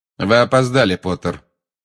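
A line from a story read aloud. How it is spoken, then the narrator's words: Cold. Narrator (Russian): холодно сказал Снег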